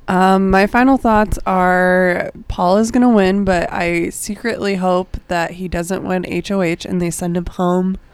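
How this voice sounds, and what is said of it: Hoarse, strained voice. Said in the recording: “I'm like losing my voice.”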